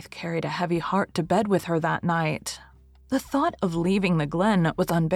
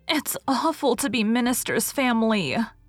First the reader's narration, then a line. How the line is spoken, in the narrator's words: groaned Faith into her pillow